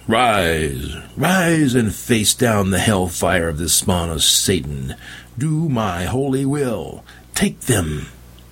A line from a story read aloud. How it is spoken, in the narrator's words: The prophet thundered